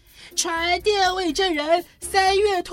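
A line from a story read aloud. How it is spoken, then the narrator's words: Calling out. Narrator (Chinese): 白兔先生接着喊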